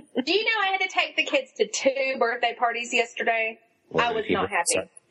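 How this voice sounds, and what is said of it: Southern US Georgian accent. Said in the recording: “legitimate southern accent ... a Georgian accent”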